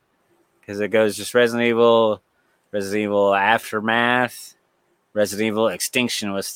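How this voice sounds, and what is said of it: Usual voice. Nothing is said of it.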